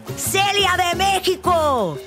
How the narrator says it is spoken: another person yelled

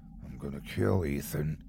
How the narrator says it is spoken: he murmured

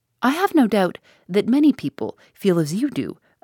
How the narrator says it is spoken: exclaimed

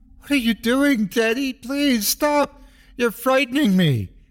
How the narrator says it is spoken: cried

